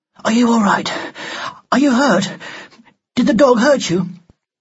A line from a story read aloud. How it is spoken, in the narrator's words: said urgently